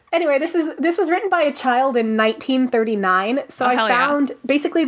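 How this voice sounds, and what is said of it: Usual voice. Nothing is said of it.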